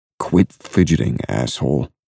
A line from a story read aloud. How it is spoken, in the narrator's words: mumble